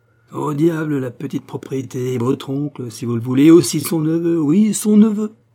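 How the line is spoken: Sneering laugh. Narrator (French): En disant cela, ricanait

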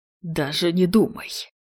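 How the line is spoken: Hiss. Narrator (Russian): Прошипел Холланд

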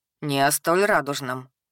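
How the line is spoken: Knowing snort. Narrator (Russian): понимающе хмыкнул Деор

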